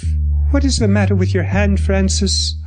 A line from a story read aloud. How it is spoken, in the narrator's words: I said in a steady voice